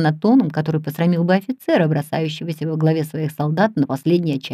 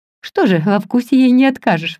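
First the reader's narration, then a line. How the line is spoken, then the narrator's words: Exclaiming. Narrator (Russian): воскликнул Генри Линн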